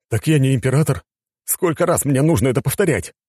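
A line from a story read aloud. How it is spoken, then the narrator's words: Exclaiming. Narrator (Russian): воскликнул Александр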